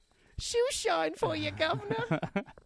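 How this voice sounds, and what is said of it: Put-on Cockney accent. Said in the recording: “What accent was that? ... I'm a Cockney chimney sweep”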